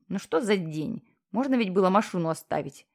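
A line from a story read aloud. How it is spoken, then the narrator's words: Grumbling. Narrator (Russian): ворчал герой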